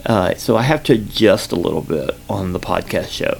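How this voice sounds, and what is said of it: Slight Southern accent. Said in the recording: “I have kind of a little bit of a Southern accent, but not as, I don't know. Some people say I have more than others”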